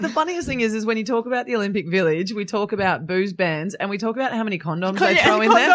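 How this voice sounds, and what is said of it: Usual voice. Nothing is said of it.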